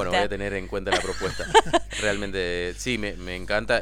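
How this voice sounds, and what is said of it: Announcer-like radio voice. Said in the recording (Spanish): “tiene voz de locutor”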